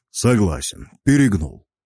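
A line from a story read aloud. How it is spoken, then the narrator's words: Snorting dwarf. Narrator (Russian): хмыкнул гном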